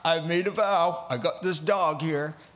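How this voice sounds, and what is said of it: Southern US accent. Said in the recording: “they always go Southern accents.”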